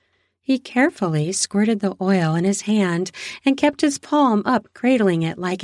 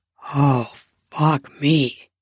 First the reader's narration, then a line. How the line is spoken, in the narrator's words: he muttered